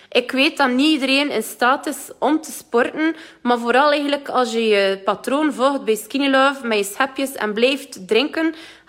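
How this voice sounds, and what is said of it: West Flemish accent. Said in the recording (Dutch): “met een West-Vlaams accent. ... ik kan het niet verstoppen dat ik van West-Vlaanderen ben”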